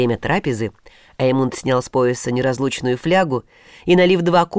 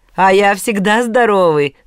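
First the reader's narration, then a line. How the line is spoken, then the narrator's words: Loud booming laugh. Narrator (Russian): зычно расхохотался Офантл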